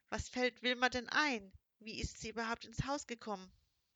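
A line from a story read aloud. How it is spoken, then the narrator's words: Heavy sigh. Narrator (German): Juanita seufzte schwer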